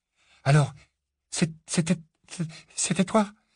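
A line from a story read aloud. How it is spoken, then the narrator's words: Weak stammer, teeth chattering. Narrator (French): bredouilla enfin Harry, claquant des dents, la voix plus faible qu'à l'ordinaire en raison de sa quasi-strangulation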